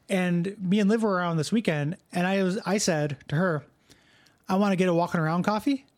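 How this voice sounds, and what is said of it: Regional accent, loose enunciation. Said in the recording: “how fucking crazy my accent must sound to somebody from another country, because I'm not good at enunciating, and I mispronounce a lot of things”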